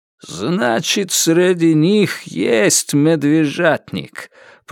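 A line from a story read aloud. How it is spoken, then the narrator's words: Spoken through teeth. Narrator (Russian): процедил Кайрат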